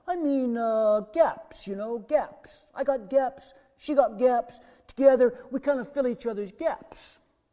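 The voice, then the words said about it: Sylvester Stallone impression. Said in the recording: “my Sylvester Stallone impression”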